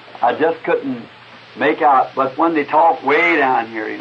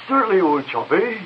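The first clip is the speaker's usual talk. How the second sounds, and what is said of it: Imitated English cockney accent. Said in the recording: “I'm not a mimic by long ways, but I'm going to try to impersonate something... a regular English cockney”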